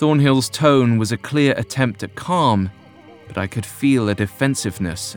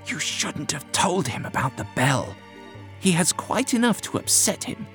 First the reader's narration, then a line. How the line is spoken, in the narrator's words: Whittam hissed to the doctor